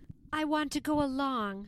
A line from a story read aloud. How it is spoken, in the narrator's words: pleaded Lillian on board Tonawanda